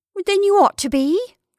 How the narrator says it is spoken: cried

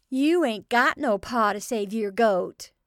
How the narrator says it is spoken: Young Joe Doan, too long browbeaten not to hold the moment of his advantage, with the taunting yell

